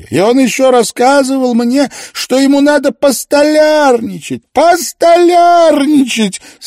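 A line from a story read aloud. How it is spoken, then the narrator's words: Laughter turning to sobs. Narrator (Russian): Смех сменился рыданиями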